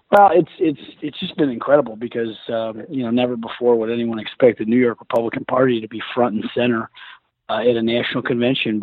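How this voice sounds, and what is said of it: Slightly hoarse voice. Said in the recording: “Apologize for voice being a little hoarse, but it's been a long couple nights.”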